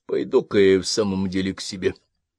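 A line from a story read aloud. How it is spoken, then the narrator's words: Tired speech. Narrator (Russian): устало проговорил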